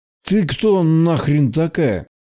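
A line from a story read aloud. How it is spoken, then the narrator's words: Mumbled through barely opened mouth. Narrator (Russian): Промямлил тот, едва открывая рот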